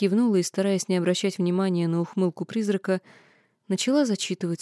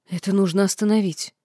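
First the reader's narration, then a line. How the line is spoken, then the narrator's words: Indignant exclamation. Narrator (Russian): воскликнула я, негодуя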